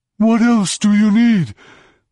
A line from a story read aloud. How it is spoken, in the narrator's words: it wheezed in Romani's voice